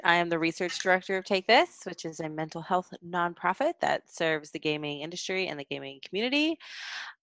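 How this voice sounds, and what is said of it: Sick, weird-sounding voice. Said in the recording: “I am currently a little sick, so forgive my voice if it sounds weird.”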